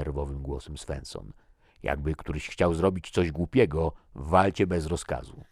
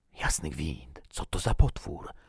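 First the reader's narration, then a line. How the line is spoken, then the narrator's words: Whispered. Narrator (Polish): szepnął Thomason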